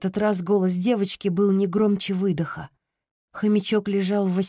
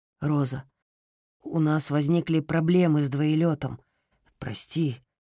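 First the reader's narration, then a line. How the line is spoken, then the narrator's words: Muttered. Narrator (Russian): пробормотал он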